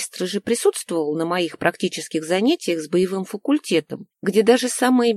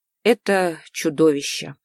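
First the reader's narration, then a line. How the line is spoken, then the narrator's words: Breathless exhale. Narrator (Russian): выдохнул магистр Хивисандр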